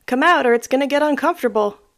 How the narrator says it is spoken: yells

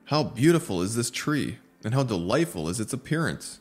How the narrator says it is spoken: exclaimed

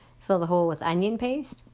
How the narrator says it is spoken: Sam laughed

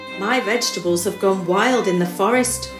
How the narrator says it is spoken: muttered Anton

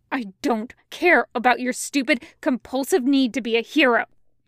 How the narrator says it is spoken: Zhang Cheng hisses

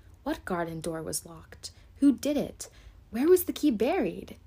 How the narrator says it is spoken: exclaimed, as if he was suddenly very much excited

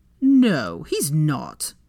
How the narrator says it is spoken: Draco scoffed

